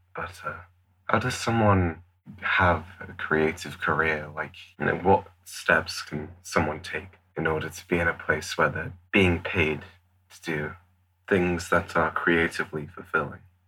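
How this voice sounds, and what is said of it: Nervous-sounding voice. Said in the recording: “I'm sorry if I sound a little nervous. It's because I am.”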